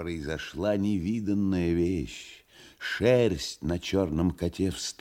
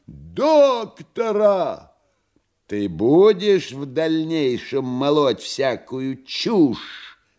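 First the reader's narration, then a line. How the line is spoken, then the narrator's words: Menacing question. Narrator (Russian): грозно спросил фагот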